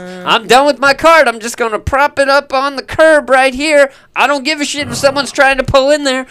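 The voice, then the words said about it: Weird hillbilly accent. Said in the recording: “I don't know why I have this weird hillbilly accent to it”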